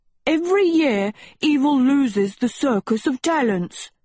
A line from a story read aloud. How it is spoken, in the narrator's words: Sheba yelled